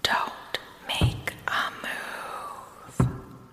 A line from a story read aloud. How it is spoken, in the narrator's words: TikTok whispered as quietly as possible